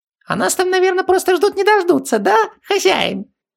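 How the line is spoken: Nasty thin little voice. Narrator (Russian): Противным голоском уточнил Хубаксис

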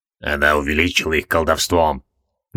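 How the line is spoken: Quiet. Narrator (Russian): негромко сказал Геймардос

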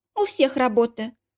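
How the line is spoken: Dry reply. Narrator (Russian): сухо ответила Софья Петровна

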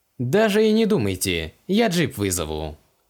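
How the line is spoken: Plain. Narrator (Russian): сказал лейтенант

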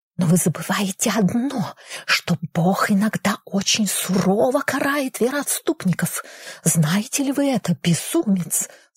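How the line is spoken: Hissing whisper. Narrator (Russian): свистящим шепотом пронеслось по исповедальне

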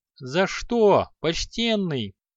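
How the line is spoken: Boy screaming in pain. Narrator (Russian): завопил от боли мальчишка

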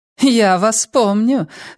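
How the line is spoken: Laughing woman. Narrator (Russian): засмеялась дама

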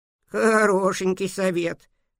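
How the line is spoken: Snorting sheep. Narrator (Russian): фыркнула овца

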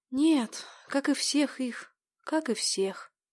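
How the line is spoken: Quiet whisper. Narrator (Russian): тихо прошептала та

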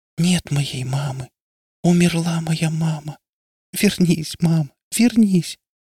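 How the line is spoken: Breaking, tearful whisper. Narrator (Russian): Галя прошептала срывающимся голосом

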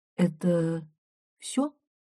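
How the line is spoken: Soft question. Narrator (Russian): мягко спрашиваю я

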